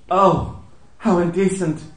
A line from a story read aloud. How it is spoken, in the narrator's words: cried Marmee with a little gasp